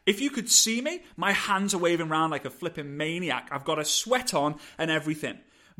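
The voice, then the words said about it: Accented, fast, passionate speech. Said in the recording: “I hope you're okay with my accent. ... I hope you're okay with my passion. I hope you're okay with my speed and tonality.”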